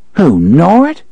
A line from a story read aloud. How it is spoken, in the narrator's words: She laughed, affecting annoyance to cover her confusion